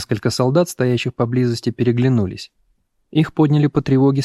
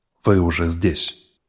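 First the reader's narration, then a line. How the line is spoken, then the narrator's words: Tired. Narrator (Russian): устало произнес он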